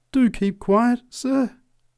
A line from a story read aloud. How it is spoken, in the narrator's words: pleaded the preacher